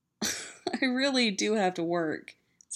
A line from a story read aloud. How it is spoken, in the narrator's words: says Danny, laughing and breathless